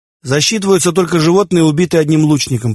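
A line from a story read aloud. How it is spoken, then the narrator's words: Shouting. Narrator (Russian): прокричал ему Тан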